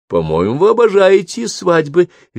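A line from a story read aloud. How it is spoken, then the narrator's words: Cheerful, slightly awkward. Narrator (Russian): весело сказала она, не зная, что еще придумать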